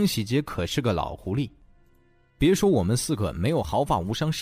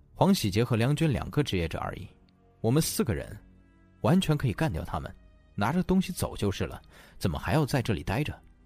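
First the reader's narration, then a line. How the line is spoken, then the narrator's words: Soft, quiet. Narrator (Chinese): 男子 才轻声道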